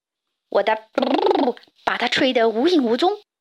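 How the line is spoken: Bear's roar. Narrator (Chinese): 熊咆哮道

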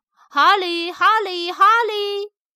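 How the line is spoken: Repeated calling of name. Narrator (Chinese): 有人在叫他的名字，一声接着一声

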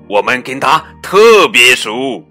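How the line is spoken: Loud plant spirit. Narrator (Chinese): 植物精灵大声说

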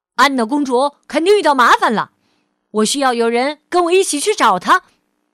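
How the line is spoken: Loud shout. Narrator (Chinese): 汉斯高声喊道

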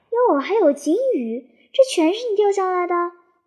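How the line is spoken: Surprised exclamation. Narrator (Chinese): 他一瞧就又大惊小怪的叫起来

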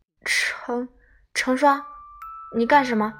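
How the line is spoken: Stammering. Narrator (Chinese): 刘十三结结巴巴

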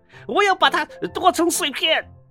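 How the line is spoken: Shouting. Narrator (Chinese): 邦斯喊道

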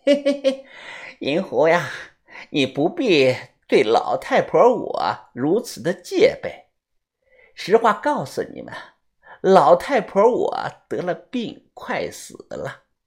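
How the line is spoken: Old woman laughing. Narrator (Chinese): 老太婆顿时笑了

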